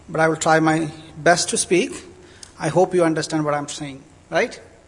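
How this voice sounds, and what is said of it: Indian accent. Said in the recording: “I have an Indian accent because I am from India.”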